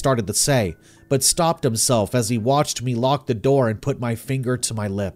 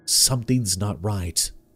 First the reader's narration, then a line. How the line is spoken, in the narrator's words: I whispered